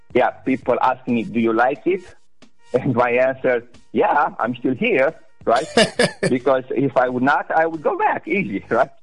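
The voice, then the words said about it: Romanian accent. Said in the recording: “Eastern Europe, Romania... I love the accent”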